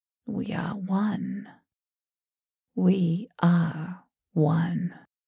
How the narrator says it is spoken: grinned, and heard myself whisper

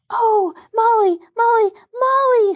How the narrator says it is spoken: shouted Betsy, jumping up and down

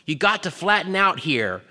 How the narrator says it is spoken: called back, grunting in order to fit beneath the outcropping boulder

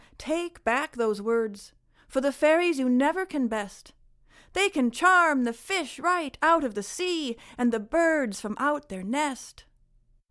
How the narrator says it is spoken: Cried Ian McGraw

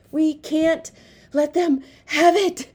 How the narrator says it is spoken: panted Pong

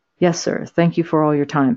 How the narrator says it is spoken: Babcock said

